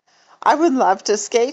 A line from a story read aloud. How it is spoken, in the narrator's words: she said